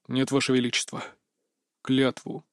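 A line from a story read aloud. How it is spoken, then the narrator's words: Grim demand. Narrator (Russian): мрачно потребовал Терне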